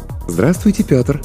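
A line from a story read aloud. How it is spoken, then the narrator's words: Cooing pleasant female voice. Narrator (Russian): проворковал приятный женский голос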